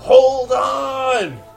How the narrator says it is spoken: Actually, he's in his croaker voice

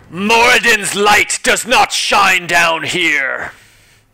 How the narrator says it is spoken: he shouts back

